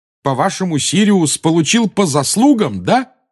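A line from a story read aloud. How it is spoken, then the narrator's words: Yelling. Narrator (Russian): завопил Гарри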